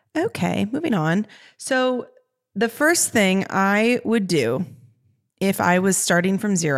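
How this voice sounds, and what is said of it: Usual voice. Nothing is said of it.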